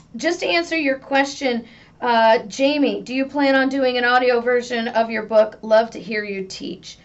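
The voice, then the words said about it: Rough, strained voice. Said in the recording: “Wow, my voice. I have to apologize, guys. My voice is just crazy. I'm going to make sure that I get my full dose of tea and honey today”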